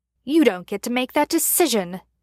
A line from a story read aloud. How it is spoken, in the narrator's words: Chad snapped back